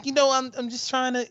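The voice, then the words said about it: Imitates another person's voice. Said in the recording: “do a John Ziegler impression”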